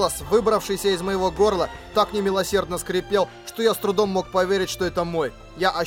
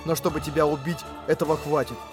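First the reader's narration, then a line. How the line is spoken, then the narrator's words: Whisper. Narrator (Russian): прошептал я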